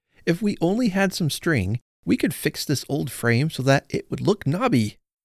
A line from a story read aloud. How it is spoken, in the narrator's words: he cried